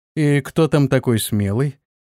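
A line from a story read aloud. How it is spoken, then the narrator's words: Lazy question. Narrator (Russian): Антон лениво спросил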